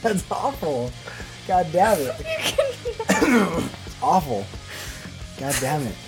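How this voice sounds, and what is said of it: Damaged, strained voice. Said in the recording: “can't even laugh ... my voice is all fucked”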